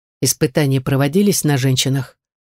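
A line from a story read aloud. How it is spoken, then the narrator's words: Dry question. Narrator (Russian): сухо спросил веркомандир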